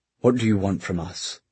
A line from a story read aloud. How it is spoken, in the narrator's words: Gideon asked, his voice controlled